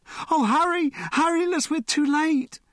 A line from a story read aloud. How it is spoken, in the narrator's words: the girl cried